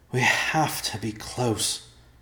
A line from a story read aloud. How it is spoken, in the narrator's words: Ben said, and breathed heavily